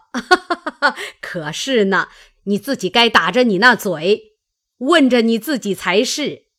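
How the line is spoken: Laughing. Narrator (Chinese): 贾母笑道

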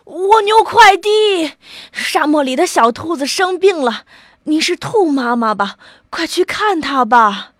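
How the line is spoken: Little snail calling out. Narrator (Chinese): 小蜗牛叫道

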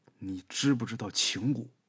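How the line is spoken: Old woman, gritted teeth. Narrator (Chinese): 老太太咬牙说

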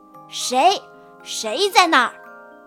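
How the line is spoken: Sharp, stern shout. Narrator (Chinese): 大脚厉声喝道

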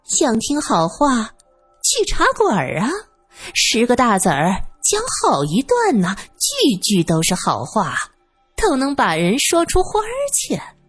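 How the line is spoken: Laughing. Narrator (Chinese): 月梅笑道

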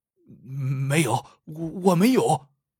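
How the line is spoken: Frightened stammering. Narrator (Chinese): 赵大恶惊的，结结巴巴的说

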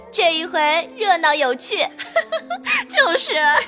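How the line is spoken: Group laughing. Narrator (Chinese): 众人笑道

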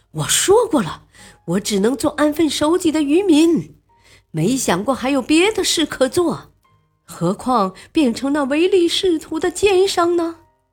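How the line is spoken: Long sigh. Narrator (Chinese): 天使听后长叹了一口气

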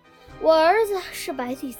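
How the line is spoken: Old woman sighing. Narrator (Chinese): 老婆婆叹着气说

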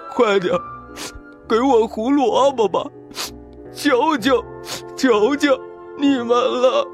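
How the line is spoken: Sobbing. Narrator (Chinese): 他抽泣着

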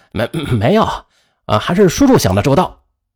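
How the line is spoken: Forced awkward laugh. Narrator (Chinese): 雷斌 干笑了一下，说

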